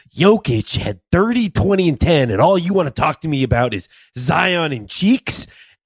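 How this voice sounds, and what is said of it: Mike Malone impression, Jack Nicholson-like. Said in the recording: “Have a little, you have a little Jack Nicholson in your Michael Malone impression... That is your official Mike Malone.”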